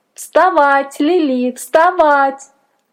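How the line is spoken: Thin voice shouting in ear. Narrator (Russian): тоненький голосок кричал на ухо

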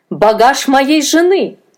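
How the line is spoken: Shouted. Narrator (Russian): закричал он

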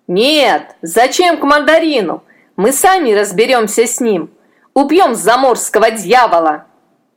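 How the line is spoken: Crowd shouting back. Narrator (Russian): Из толпы закричали в ответ

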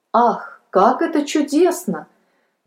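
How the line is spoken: Joyful boy exclaiming. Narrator (Russian): воскликнул мальчик, от радости

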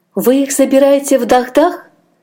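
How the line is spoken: Hopeful exclamation. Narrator (Russian): с надеждой воскликнула мать Аджея, которую только что продали человеку, жившему в том городе

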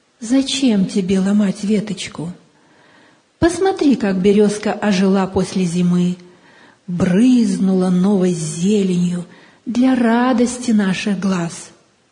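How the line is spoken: Gentle grandmotherly voice. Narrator (Russian): Бабушка ласково произнесла

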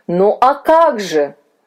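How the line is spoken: Exclaimed. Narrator (Russian): воскликнул господин Вильс

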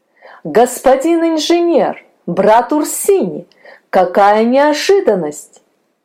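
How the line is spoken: Joyful surprised exclamation. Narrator (Russian): Радостно и удивленно воскликнул Петр

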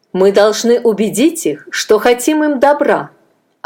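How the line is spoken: Firm voice. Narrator (Russian): ответил Адонирам твердым голосом

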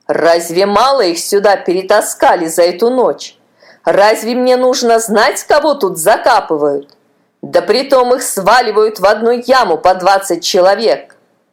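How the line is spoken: Rude. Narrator (Russian): сторож грубо ответил

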